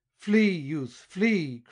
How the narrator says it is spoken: cried he

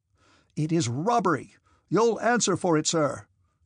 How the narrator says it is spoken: said the infantry officer, raising his voice

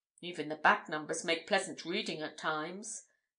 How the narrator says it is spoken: murmured Spargo

